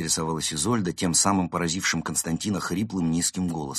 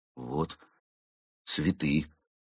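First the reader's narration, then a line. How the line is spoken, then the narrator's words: Shocked, strained forced words. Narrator (Russian): с видимым усилием выдавил из себя шокированный кот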